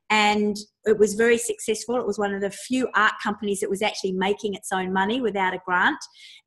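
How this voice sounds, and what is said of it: Australian accent. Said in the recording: “you will pick up on that accent. And she's in Australia.”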